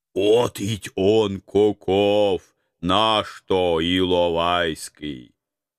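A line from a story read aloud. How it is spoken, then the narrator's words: Patronizing booming. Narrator (Russian): Покровительственно прогудел староста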